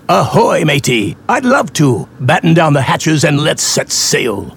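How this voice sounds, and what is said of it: Pirate voice. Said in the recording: “talking like a pirate”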